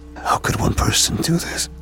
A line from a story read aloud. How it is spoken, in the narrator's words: I whispered to myself